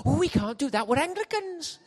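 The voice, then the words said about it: Put-on Welsh accent, sounds Indian. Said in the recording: “That's Welsh, if you're wondering what that accent is. It's Welsh. Sounds a bit Indian, but it's supposed to be Welsh.”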